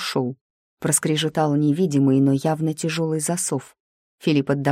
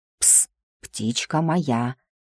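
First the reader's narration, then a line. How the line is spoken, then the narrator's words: Distant whisper. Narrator (Russian): донесся шепот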